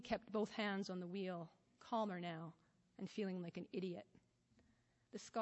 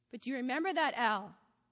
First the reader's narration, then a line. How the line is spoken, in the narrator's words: Toby shouted above the wind